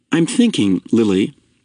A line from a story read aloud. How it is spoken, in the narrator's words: he said